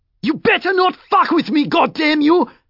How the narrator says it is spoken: Mackie screeched, half blind with fury

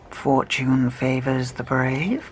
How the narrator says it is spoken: he muttered to himself

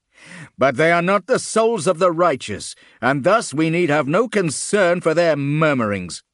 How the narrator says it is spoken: Karok called out

